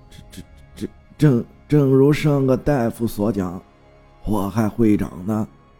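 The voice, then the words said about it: Trembling, stammering old man's voice. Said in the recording (Chinese): “老中医身子微微一颤，从怀中掏出了手绢，擦了擦汗，用颤巍巍的声音说道”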